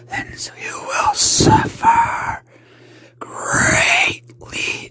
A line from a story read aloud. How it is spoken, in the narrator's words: said in a raspy tone